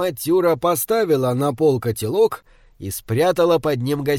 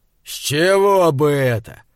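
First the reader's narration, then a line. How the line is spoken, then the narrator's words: Booming, rough giant's objection. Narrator (Russian): возразил великан громогласно и грубо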